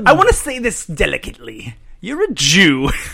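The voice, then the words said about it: Spot-on celebrity impersonation. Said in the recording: “That seriously is like a spot on impersonation.”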